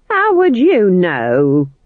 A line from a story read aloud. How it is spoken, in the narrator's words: snapped Nanny